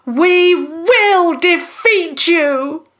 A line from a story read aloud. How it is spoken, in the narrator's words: Tom shouted from his cage